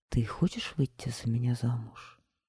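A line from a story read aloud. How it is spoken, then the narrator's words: Quiet question. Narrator (Russian): тихо спросил Мимандр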